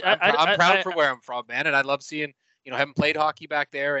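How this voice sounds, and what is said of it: Canadian Maritimes accent. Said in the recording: “Being from the Maritimes myself ... my, you know, accent that I can't quite completely hide”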